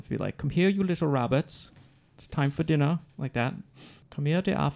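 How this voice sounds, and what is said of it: Put-on English accent. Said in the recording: “if they said it in an English accent, how that would sound”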